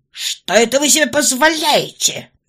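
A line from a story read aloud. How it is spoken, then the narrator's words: Indignant yell. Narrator (Russian): возмущенно завопил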